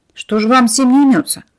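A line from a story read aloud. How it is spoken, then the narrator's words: Grumbling neighbor. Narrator (Russian): проворчала соседка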